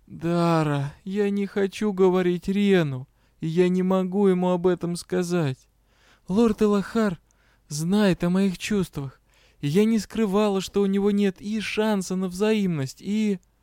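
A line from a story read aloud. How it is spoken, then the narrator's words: Moaning. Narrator (Russian): я простонала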